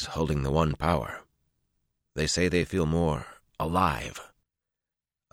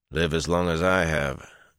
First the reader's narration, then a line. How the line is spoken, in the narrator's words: Elias replied in a dry voice